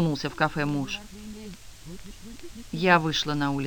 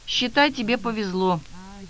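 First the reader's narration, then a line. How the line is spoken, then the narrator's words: Sighing woman. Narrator (Russian): вздохнула женщина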